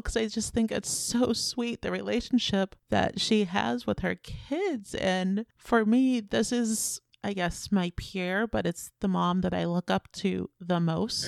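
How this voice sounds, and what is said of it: Emotional, choked-up voice. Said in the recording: “Oh, God, I'm getting emotional. Why am I getting emotional? ... I'm getting emotional”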